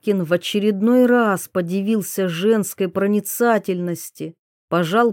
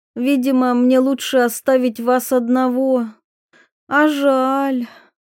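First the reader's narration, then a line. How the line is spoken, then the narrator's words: Sighing. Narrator (Russian): Диана вздохнула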